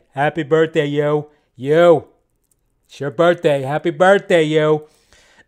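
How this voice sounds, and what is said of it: Imitates another person's voice. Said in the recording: “terrible Robert De Niro impression”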